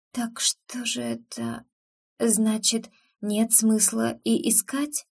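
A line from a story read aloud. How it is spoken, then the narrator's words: Breathed out. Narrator (Russian): Выдохнула я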